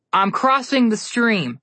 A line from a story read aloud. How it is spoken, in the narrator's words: Connor yelled back